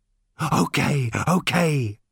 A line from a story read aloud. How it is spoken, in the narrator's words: panted the robot